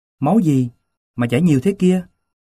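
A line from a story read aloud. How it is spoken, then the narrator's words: Alarmed exclamation. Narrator (Vietnamese): Cô nhìn tôi và kêu lên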